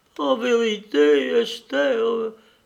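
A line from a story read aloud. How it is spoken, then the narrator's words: Sobbing young lady. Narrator (French): dit en sanglotant ma petite lady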